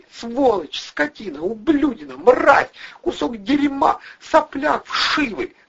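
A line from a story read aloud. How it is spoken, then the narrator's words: Shouting through sobs. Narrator (Russian): выкрикивала она сквозь рыдания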